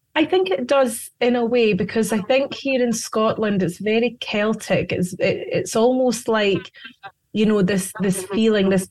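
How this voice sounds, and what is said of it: Scottish accent. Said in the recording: “You're from Scotland. ... Yes, I am. Yes, as you can hear by my accent.”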